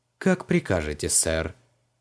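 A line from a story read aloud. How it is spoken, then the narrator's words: Dry. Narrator (Russian): сухо ответил домовой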